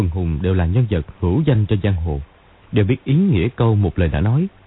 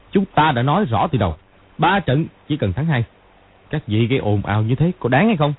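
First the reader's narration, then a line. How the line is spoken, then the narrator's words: Loud shout. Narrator (Vietnamese): Hoắc Đồ quát to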